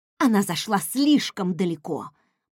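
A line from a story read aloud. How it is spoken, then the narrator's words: Growl. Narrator (Russian): прорычала я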